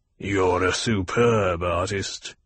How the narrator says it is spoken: the Baron growled

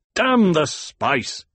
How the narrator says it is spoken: the Duke barked

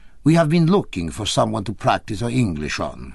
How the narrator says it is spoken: he said

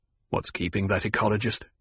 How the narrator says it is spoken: The Duke muttered

